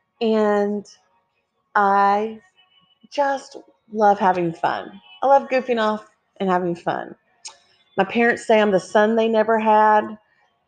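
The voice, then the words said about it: Texan accent. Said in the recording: “I live in Texas, in case you couldn't tell by the accent.”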